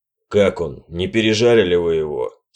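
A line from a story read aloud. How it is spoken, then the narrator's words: Plain question. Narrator (Russian): спросил Янгер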